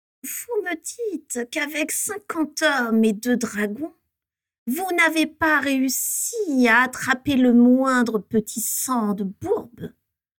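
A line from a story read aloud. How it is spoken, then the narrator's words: Hissed. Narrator (French): siffla Voldemort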